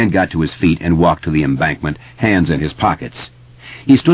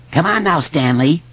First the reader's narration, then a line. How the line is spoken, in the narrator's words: Richie said in a shrill falsetto